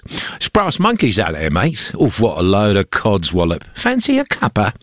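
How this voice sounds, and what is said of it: Put-on English accent. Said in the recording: “it's got to be English, right? So work on your English accent”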